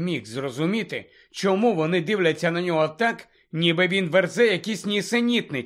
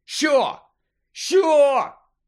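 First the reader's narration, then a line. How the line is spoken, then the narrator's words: Shouted. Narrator (Ukrainian): закричав Гаррі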